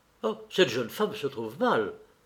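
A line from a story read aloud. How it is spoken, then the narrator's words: Tall man exclaiming. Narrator (French): s'écria le grand brun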